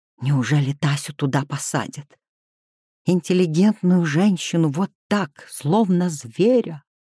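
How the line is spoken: Indignant whisper. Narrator (Russian): возмущенно прошептала она

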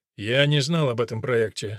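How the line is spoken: Dry. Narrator (Russian): сухо сказал он

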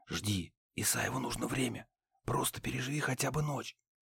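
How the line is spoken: Sudden whisper. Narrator (Russian): неожиданно прошептал

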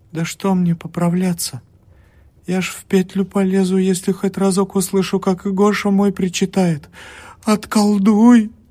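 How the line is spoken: Pleading. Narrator (Russian): взмолилась она

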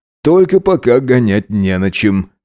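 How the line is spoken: Snorting remark. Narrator (Russian): хмыкнул он

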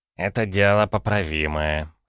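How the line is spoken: Snorting chuckle. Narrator (Russian): хмыкнул Рубл

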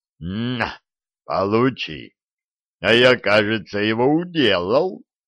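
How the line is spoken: Joyful roar. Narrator (Russian): радостно взревел Диффенбахи

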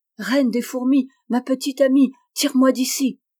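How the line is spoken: Exclaiming. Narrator (French): s'écria

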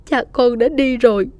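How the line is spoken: Mother's tearful sobbing. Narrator (Vietnamese): mẹ nức nở nói trong nước mắt

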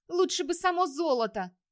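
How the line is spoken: Irritated shout. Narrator (Russian): раздраженно крикнула Ингерид

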